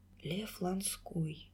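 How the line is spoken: Quiet repetition. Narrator (Russian): тихо повторила она

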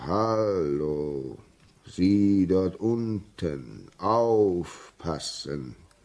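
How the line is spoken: Hoarse from shouting. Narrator (German): schien schon ganz heiser von seinem Geschrei zu sein

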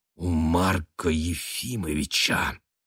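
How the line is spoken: Angry whisper. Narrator (Russian): зло прошептала она

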